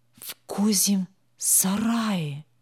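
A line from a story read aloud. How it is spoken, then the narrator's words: Clear whisper. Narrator (Russian): ясный шепот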